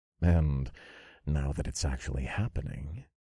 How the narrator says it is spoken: I chuckled

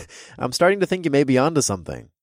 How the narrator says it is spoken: I chuckled

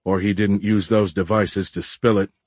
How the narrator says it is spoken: grumbled Marcus

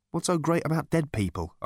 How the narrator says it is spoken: asked Arthur, nervously

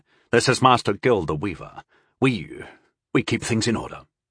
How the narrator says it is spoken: he said

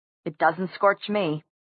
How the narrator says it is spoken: Simon said in a hard, clear voice

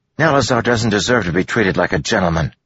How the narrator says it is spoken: Joel snapped

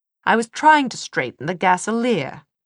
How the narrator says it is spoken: Will said crossly

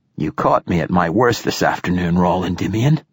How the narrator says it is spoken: he rasped

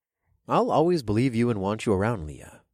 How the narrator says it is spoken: I whispered

